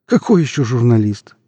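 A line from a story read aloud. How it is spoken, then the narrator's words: Joyless chuckle. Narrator (Russian): невесело хохотнул Иван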